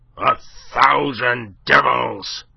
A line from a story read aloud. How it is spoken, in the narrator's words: he roared